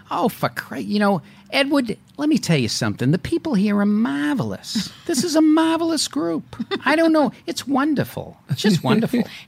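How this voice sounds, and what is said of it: Put-on Boston accent. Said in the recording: “You have no accent whatsoever. ... Oh, I could. ... put it on ... Well, what about your accent?”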